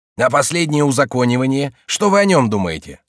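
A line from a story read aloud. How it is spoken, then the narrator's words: Plain. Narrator (Russian): спросил Браглон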